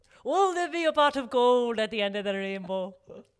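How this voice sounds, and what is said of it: Put-on Irish woman's accent. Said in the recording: “Your accent is just ... chef's ... Kiss. Chef's kiss. Irish woman.”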